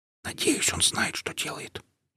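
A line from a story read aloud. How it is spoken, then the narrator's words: Barely audible whisper. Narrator (Russian): едва слышно прошептал Андрей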